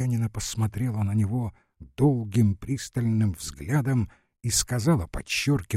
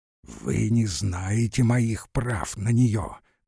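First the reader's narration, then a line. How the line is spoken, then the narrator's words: Hissed. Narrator (Russian): прошипел он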